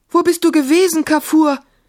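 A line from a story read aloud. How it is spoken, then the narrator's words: Calling out. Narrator (German): rief Maimun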